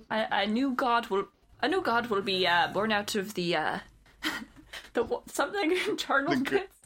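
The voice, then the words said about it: Bad put-on Irish accent. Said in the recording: “my bad Irish accent”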